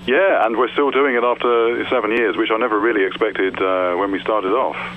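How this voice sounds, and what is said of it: Standard English accent. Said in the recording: “I love your accent... I'm from England. I live in southwest England... the English accent... I consider myself fairly sort of standard.”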